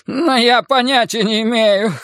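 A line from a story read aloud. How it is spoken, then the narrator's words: Whining. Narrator (Russian): хныкал Кирк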